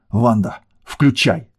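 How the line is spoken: Angry outburst. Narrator (Russian): зло выпалил гермайор

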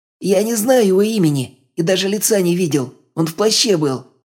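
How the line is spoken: Whining. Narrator (Russian): заскулил Халва

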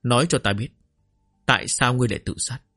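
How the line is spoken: Cold. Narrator (Vietnamese): Kịch quỹ lạnh lùng nói

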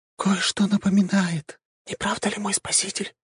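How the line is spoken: Whisper. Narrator (Russian): прошептала пожирательница душ

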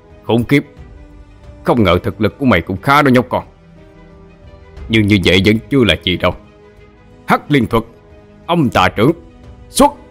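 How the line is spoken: Resentful shout. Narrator (Vietnamese): mà lòng không cam tâm, liền quát lên

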